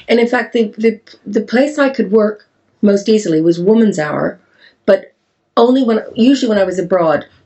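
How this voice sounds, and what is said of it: Canadian English accent. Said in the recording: “my Canadian accent”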